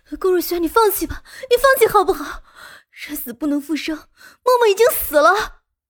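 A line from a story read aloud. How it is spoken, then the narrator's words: Roaring. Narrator (Chinese): 莫云熙……吼道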